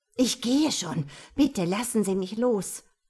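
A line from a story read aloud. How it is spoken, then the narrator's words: Hissing. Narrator (German): zischte Annette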